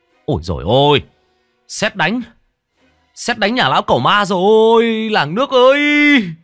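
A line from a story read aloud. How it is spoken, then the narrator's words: Man's panicked shriek. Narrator (Vietnamese): một người đàn ông rú lên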